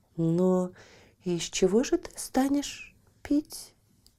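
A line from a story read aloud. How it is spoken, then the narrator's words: Plain. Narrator (Russian): спросила девушка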